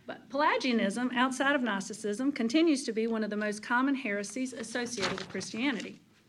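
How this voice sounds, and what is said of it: Eastern North Carolina accent. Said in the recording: “my Eastern North Carolina accent”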